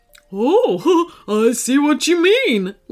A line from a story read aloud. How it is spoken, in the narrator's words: laughed Phoebe